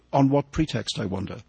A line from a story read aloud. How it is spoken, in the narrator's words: Argalia said gravely